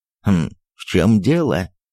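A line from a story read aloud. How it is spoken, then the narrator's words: Angry question. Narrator (Russian): спросил он сердито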